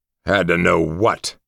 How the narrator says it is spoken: I growled, my voice hoarse

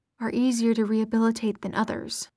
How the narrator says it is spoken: Jordan muttered

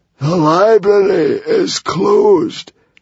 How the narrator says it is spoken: croaked the Hairy, Scary Librarian

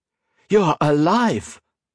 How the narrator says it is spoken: exclaimed, staring incredulously

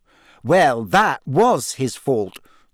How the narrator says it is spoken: said Hermione testily

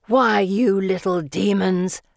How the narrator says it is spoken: Felicity growls

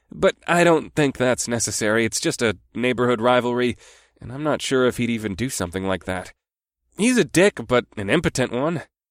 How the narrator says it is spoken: chuckled to relieve the tension

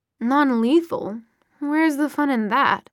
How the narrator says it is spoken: Sebastian purred

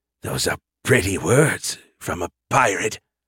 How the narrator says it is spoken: said with a hiss

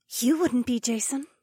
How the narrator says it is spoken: Becca whispered

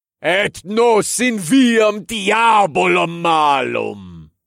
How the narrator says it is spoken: I bellowed

